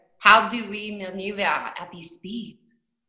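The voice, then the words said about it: Put-on French accent. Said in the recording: “since you play a French character, do you do an accent? ... I do. ... Can you hear it? ... Oh, you really can.”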